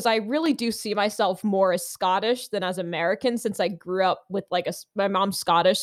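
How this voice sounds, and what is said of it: American accent. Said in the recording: “people would hear my American accent.”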